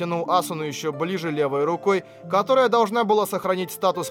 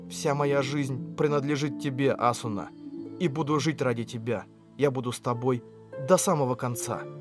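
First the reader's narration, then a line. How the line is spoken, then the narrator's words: Whisper. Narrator (Russian): я прошептал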